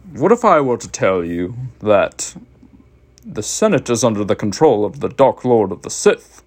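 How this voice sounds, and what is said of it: Count Dooku character impression. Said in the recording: “this is my Count Dooku impression.”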